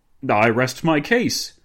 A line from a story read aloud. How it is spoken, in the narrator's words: Dinglebrush exclaimed